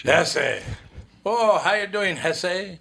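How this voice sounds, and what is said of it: Brief put-on accent. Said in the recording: “I added a little accent in there... A little accent going on”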